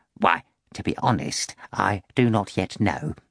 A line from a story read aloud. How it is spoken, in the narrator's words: Korofyov replied